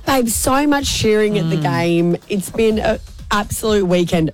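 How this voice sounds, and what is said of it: Raspy, worn-out voice. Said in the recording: “My voice is a little bit more raspy than it usually is. ... I'm surprised you still have a voice. Lots of cheering at the game”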